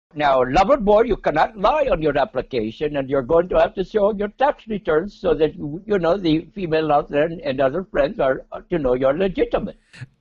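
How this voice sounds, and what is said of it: Put-on Indian accent. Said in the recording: “why has your accent changed and it's Indian now?”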